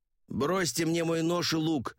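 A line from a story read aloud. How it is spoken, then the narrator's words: Shouted. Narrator (Russian): крикнул я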